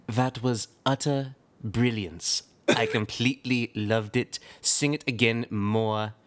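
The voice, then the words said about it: Imitates another person's voice. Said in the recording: “do my best Simon Cowell impression”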